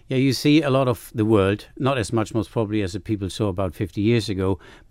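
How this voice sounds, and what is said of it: Non-Manx foreign accent. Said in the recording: “clearly not a Manx accent there”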